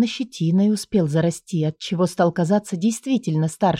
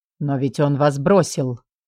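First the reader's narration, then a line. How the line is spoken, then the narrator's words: Calm. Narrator (Russian): произнес спокойно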